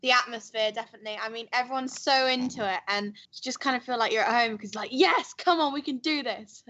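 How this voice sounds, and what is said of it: Speaks with a noticeable accent. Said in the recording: “Where does she get that accent from?”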